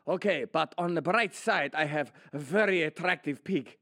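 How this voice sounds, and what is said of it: Put-on Spanish accent. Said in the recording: “sorry for that accent. It's a Spanish person, basically European”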